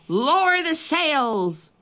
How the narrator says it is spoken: Braidbeard shouted

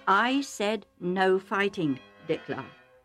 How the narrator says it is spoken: Isaac said calmly but firmly

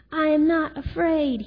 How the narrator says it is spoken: he shouted

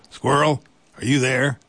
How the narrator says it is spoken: he called out

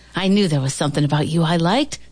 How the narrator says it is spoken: Tom said

